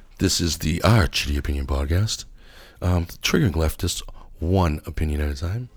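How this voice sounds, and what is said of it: Late night radio voice, dry throat. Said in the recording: “my late night radio voice since I'm all dry throat right now”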